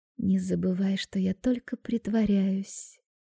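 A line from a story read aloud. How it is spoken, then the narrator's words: Tender murmur in ear. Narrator (Russian): нежно бормочу ему на ушко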